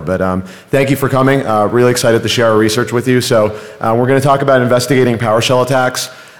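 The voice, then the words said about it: Hoarse, worn-out voice. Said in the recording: “apologize if we sound a bit hoarse. ... this is like the last little bit of my voice that's left”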